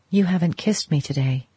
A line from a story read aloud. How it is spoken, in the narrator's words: said in a whisper